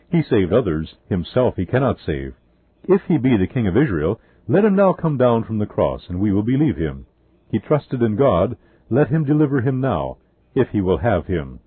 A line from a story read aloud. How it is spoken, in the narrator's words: in satanic exultation, they exclaimed